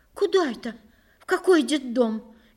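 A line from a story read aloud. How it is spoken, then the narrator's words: Frightened question. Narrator (Russian): испуганно спросила она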